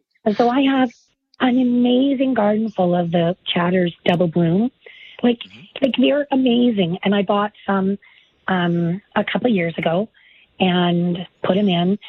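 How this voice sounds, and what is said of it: Hoarse, raspy voice. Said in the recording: “You have to bear with my laryngitis”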